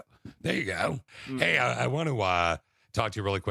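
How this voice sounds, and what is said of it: Usual voice. Nothing is said of it.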